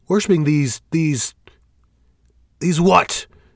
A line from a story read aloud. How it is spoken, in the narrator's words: Fell shouts